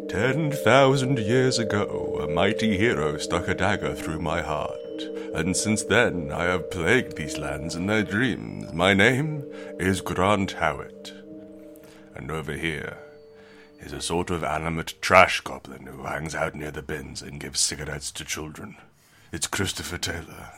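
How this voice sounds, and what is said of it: Spooky voice. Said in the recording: “You found the spooky voice, have you? ... We found the spooky voice.”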